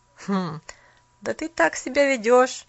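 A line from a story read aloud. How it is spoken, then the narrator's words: Boy laughing. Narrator (Russian): Паренек засмеялся опять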